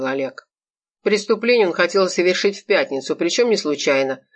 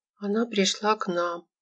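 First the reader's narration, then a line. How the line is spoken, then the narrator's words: Muttering. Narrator (Russian): пробормотала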